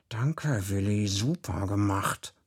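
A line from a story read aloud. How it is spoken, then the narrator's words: Hissing. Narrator (German): ich zischte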